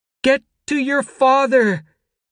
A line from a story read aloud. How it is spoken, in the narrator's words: she screamed, cupping her hands around her mouth